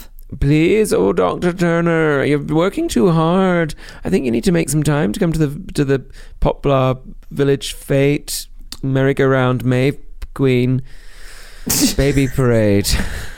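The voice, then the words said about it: Character voice of Mrs. Turner. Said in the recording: “do the voices, which, of course, we're very good at doing now... my Mrs. Turner from Call the Midwife, Dr. Turner's wife”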